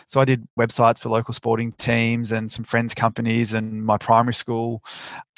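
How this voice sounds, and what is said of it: Australian accent. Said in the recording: “I'm in Australia, obviously from the accent.”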